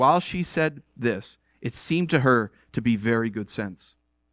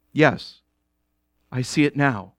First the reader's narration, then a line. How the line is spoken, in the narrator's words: said Jill in a heavy, hopeless tone